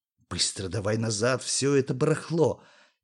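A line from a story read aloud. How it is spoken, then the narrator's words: Quiet. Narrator (Russian): тихо сказал Юре Сашуня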